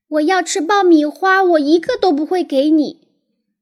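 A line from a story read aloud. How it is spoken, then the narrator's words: Angry child shouting. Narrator (Chinese): 罗伯特生我的气，大叫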